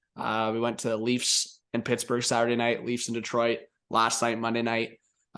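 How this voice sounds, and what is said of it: Voice sounds congested from a cold. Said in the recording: “still pushing through a, a bit of a cold ... You could probably hear it in my voice a little bit. Got the cold going”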